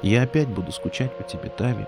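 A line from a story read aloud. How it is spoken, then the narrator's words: Whisper into ear. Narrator (Russian): прошептала она ей на ушко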